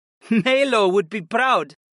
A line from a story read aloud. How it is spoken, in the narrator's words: Syra laughed